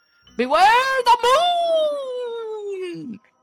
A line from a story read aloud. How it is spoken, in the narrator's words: screaming